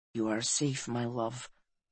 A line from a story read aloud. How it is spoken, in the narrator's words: he said softly